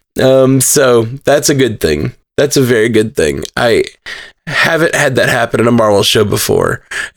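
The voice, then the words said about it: Tired, worn voice. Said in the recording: “My voice is tired from laughing.”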